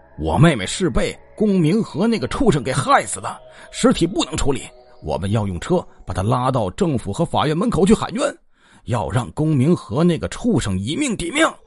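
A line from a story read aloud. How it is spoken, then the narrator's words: Group roaring. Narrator (Chinese): 他们吼道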